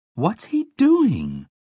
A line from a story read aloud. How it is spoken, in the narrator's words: Justine asks, a little nervously